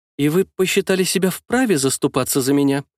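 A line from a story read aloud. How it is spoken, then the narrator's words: Bewildered question. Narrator (Russian): растерянно спросила Лиза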